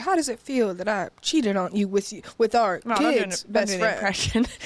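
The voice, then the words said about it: Soulful impression of Jada Pinkett Smith. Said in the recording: “Not a good impression of Jada Pinkett Smith ... that was a soulful impression.”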